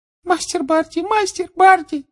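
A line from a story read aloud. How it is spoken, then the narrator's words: Muffled sobbing. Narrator (Russian): всхлипывала Винки сквозь прижатые к лицу ладони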